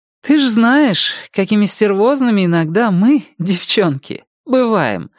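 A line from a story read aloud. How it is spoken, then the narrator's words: Said, then laughing. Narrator (Russian): сказала Рози и рассмеялась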